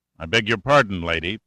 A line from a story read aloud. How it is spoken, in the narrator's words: Pitt said coldly